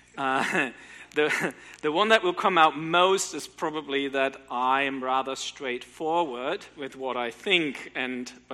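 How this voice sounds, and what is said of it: German accent. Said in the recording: “perhaps you can hear from the accent that I'm not from around here ... I actually grew up in Germany”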